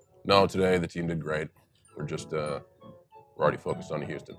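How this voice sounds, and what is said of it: Monotone impression of a coach. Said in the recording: “Do you have a Bill Belichick?... as monotone as I can be”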